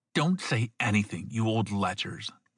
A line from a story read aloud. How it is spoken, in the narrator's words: the fat woman spat